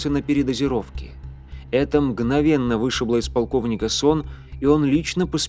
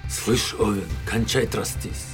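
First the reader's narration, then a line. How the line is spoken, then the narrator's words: Angry snarl. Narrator (Russian): Зло зарычал на него Абрек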